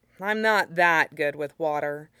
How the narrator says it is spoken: Li said dryly

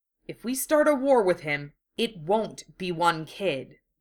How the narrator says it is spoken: Tanishi said grimly

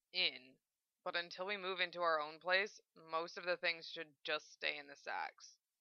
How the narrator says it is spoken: Zell answered

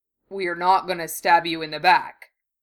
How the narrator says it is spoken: Goyle grumbled

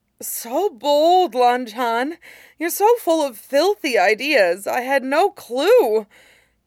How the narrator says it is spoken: Wei Wuxian gasps

